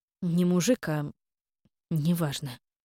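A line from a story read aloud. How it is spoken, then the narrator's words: Grumbling mutter. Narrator (Russian): буркнула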